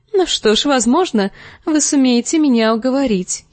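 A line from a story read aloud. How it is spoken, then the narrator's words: Giggling. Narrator (Russian): хихикнула она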